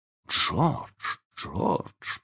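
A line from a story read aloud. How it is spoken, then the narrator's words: Whisper. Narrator (Russian): прошептала миссис Дарлинг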